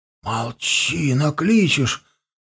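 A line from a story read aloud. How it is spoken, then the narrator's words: Voices fading into muttering. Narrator (Russian): голоса перешли в бормотание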